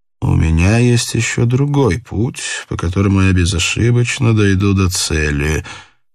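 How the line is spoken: Undiscouraged muttering under breath. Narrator (Russian): неудача его не огорчила, и он бормотал себе под нос

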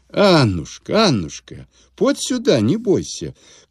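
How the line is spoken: Gentle call, old man. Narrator (Russian): кликнул старик ласково

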